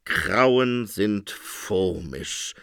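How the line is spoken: Groaning. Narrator (German): stöhnte der Phönig

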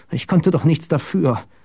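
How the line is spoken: Weak murmur. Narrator (German): murmelte er schwach

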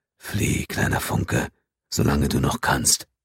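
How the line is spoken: Whispering to her. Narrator (German): flüsterte ihr zu

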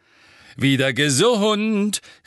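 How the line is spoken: Beaming call. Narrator (German): rief er strahlend in die Küche hinein

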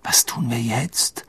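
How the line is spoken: Quiet question into ear. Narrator (German): fragte Ron leise in Harrys Ohr

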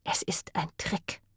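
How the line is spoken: Whisper. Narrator (German): flüsterte

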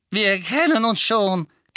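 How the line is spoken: Lively squeak. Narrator (German): quiekte der quirlige

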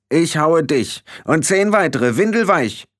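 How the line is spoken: Shouted in face. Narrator (German): schrie Rob Irgendwer dem großen Jan ins Gesicht

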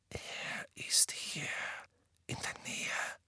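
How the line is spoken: Tense, fearful whisper. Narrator (German): flüsterte Harry, überzeugt, dass mit jedem Schritt die übel zugerichtete Gestalt Sirius am dunklen Boden vor ihnen auftauchen konnte

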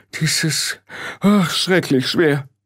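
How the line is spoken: Groaned. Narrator (German): stöhnte Frau Grad

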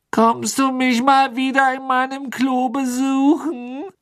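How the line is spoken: Sad, whiny question. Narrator (German): fragte die maulende Myrte mit trauriger Stimme

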